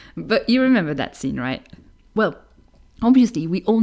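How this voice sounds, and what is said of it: Usual voice. Nothing is said of it.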